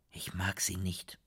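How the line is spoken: Whisper. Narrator (German): flüsterte Frido

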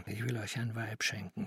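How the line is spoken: Whisper. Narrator (German): flüsterte er

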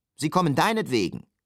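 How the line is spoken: Laurel calling out. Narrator (German): rief der Lorbeer

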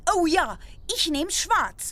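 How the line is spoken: Call. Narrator (German): rief Bull Augie

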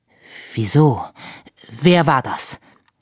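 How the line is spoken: Breathless question. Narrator (German): fragte atemlos

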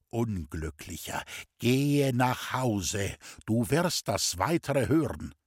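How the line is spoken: Slow, deliberate speech. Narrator (German): sagte er ganz langsam

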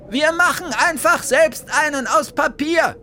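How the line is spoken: Called out. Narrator (German): rief Bertha

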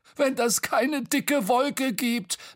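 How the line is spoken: Laughing uncontrollably. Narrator (German): lachte Bo und konnte sich gar nicht mehr einkriegen vor Lachen über seinen Witz

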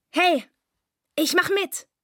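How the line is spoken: Shouting. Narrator (German): rief er

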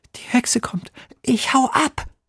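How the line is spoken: Frightened hiss. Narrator (German): zischt Emil, der schon ganz bleich ist

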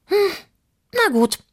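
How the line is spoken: Sigh. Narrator (German): seufzte sie

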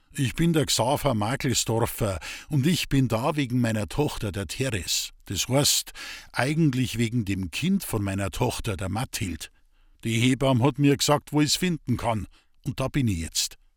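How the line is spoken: Loud and clear. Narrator (German): sagte laut und deutlich

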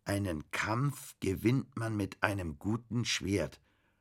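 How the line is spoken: Slow reading aloud. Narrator (German): las Bastian langsam

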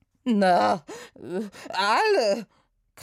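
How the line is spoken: Shrieking. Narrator (German): kreischte der Barde

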